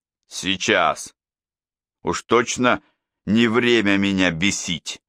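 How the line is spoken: Growled. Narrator (Russian): прорычал

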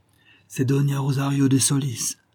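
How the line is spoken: Plain. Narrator (French): me répondit-il

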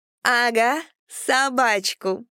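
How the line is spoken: Drunken giggling. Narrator (Russian): пьяно хихикала Ольга

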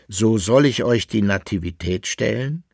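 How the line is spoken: Plain question. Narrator (German): fragte Johannes Kepler

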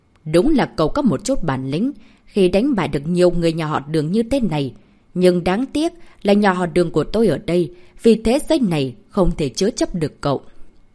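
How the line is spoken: Cold old man. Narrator (Vietnamese): Đường Cảnh Hoàng lên tiếng, lão ta giọng điệu lạnh lùng

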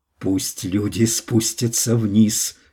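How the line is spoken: Hoarse command. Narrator (Russian): хрипло приказала она

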